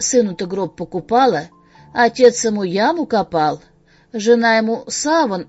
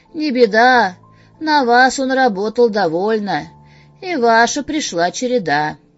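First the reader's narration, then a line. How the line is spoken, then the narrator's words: Sighing. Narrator (Russian): Вздохнул и сказал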